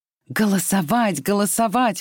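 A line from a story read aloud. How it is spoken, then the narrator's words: Exclaiming. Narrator (Russian): воскликнула Скарлетт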